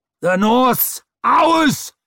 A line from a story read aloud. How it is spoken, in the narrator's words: roared the nail